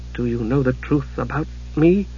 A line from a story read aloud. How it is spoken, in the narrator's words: faltered